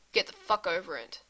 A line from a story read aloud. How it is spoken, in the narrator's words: he mutters